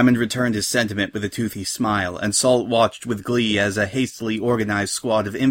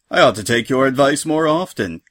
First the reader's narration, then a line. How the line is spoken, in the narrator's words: he added with another laugh